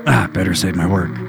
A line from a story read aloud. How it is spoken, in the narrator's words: muttered softly to himself